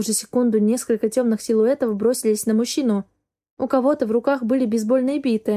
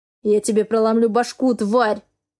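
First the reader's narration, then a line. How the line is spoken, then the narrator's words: Threatening growl. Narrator (Russian): рычал Дерек случайному человеку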